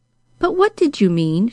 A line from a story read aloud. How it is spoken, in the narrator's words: she nervously asked